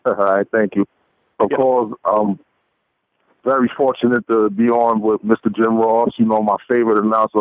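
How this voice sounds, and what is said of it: Strong Brooklyn accent. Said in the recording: “a strong Brooklyn accent”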